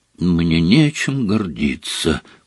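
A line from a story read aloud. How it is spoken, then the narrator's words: Muffled whisper. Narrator (Russian): прошептал он сквозь пальцы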